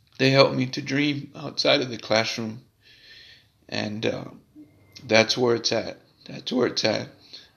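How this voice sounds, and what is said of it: Emotional voice. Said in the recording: “Sorry for getting emotional.”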